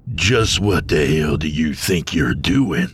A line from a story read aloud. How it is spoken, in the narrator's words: Ionios growled